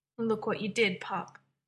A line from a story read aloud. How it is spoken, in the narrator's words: Derek said gravely